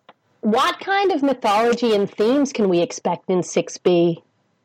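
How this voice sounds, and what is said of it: Put-on American accent. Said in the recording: “You should be doing this in an American accent.”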